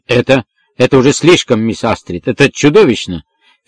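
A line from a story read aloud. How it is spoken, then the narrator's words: Loud, trembling voice. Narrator (Russian): Финкель произнес эти слова громко, дрожащим голосом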